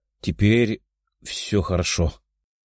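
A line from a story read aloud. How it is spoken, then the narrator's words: Young man mumbling. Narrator (Russian): пробормотал парень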